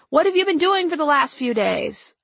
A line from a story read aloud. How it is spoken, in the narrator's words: a traveler yelled